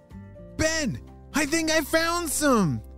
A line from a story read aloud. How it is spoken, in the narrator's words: shouted Anna